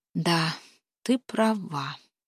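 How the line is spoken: Sighing. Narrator (Russian): вздохнула она

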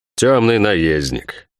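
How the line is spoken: Snorted. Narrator (Russian): фыркнул герцог

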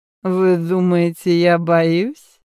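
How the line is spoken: Drunken drawl. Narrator (Russian): нетрезвым голосом, чуть растягивая слова, ответил молодой человек

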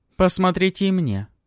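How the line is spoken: Young woman shouting. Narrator (Russian): крикнула за спиной Палыча молодая женщина

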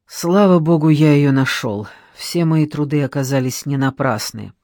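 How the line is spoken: Wry smirk, added in undertone. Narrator (Russian): Мужчина криво усмехнулся, добавил вполголоса

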